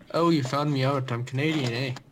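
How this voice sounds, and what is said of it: Poor Canadian accent, sounds Irish. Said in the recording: “that sounds Irish, though... I do a terrible Canadian accent”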